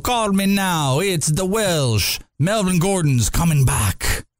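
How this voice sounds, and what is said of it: Bad impression drifting into pirate voice. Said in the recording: “He turned into a pirate right there ... my impersonations on how they go. They always fade into something else. I'm horrific at them ... You turned some British person into a redneck”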